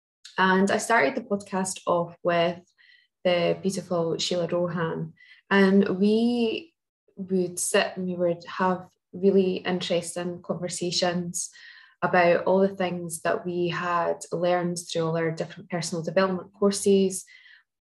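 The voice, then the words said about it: Scottish accent. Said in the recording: “I am living here in Bonnie, Scotland. Maybe we will tell from the accent.”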